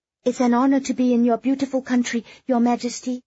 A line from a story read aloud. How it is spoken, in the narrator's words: Kitty blurted out nervously